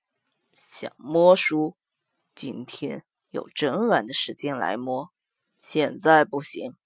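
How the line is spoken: Lowered voice. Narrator (Chinese): 墨界压低了声音

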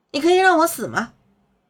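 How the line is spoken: Stunned, loud. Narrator (Chinese): 刘双双愣住了 朝男子大声道

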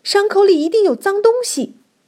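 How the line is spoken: Shrill voice. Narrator (Chinese): 镊子尖声说

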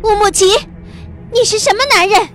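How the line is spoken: Loud shout. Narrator (Chinese): 落日霞大叫

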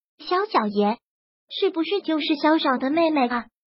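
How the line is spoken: Quiet, whispering women. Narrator (Chinese): 设计部的女人们三五人一伙凑在一起，小声的说道

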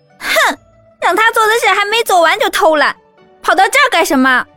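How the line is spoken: Girl scolding loudly. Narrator (Chinese): 一个比男孩年纪稍微大一点的女孩冲着哭泣的小女孩嚷道

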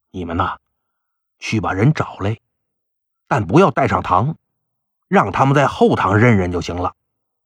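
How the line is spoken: Quiet. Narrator (Chinese): 县令就小声跟那捕快说

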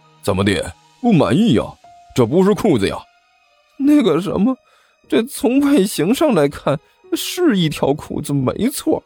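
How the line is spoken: Glum question. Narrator (Chinese): 阿巴哭丧着脸问道

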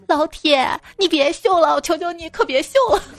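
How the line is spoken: Crying child shouting. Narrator (Chinese): 哭着喊道

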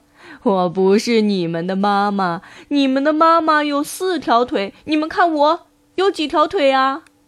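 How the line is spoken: Laughing crab. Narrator (Chinese): 螃蟹 笑着说

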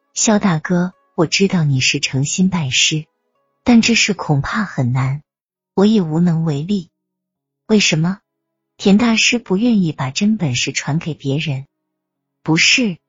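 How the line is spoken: Calm, detached. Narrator (Chinese): 田灵儿淡淡的说道

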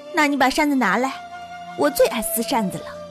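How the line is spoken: Laughing. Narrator (Chinese): 晴雯笑着说

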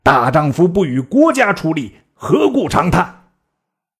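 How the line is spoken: Stern harsh voice. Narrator (Chinese): 一人厉声言曰

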